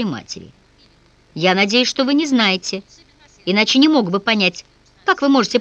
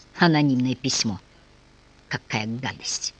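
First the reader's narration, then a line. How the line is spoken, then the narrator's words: Distraught muttering. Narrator (Russian): Совсем потеряв голову, он пробормотал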